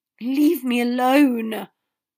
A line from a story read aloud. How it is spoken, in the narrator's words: Harry gasped